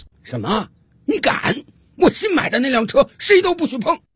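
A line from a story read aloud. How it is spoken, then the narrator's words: Loud sudden shout. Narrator (Chinese): 丈夫 突然有反应了 大声冲着太太喊道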